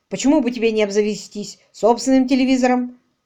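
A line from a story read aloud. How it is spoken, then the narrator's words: Boss grumbling. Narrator (Russian): ворчал шеф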